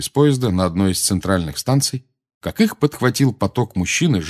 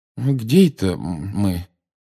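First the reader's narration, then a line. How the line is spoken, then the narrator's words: Confused question. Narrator (Russian): растерянно спросил мистер Уизли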